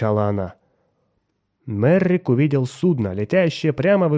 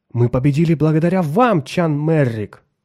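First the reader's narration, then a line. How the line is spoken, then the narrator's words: Exclamation. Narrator (Russian): воскликнул он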